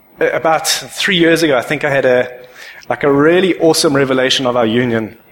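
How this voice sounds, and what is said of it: Emotional, voice choked up. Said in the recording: “I don't know why I get emotional about this”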